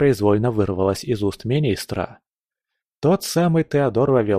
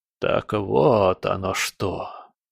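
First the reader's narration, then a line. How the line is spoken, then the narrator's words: Muttered. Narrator (Russian): пробормотал он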